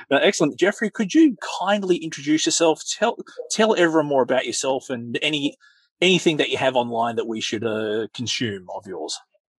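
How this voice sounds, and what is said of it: Australian accent. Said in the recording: “my weird accent, I'm in Australia”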